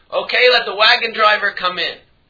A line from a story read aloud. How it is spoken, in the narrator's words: the Noda Behuda screams out